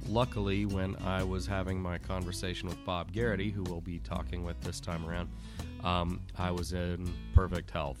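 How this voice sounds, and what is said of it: Congested voice with a head cold. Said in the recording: “my voice sounds a little off ... I am fighting a head cold”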